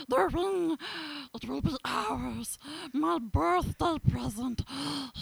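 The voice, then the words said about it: Evil-sounding Gollum character voice. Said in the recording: “Smeagol and Gollum ... he thinks it's really evil ... That was well done.”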